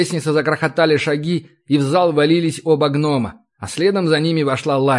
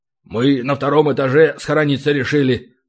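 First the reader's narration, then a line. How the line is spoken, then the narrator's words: Gruff, reluctant mutter. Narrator (Russian): буркнул Ори, как и подобает гномам, с трудом признавая свой испуг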